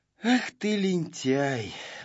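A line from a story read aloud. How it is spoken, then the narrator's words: Sighing. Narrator (Russian): вздохнул Знайка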